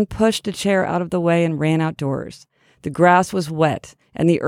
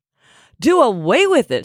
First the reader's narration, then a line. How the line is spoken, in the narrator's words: shrieked Fern